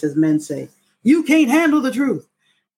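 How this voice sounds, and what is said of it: Imitates another person's voice. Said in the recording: “In my Jack Nicholson voice,”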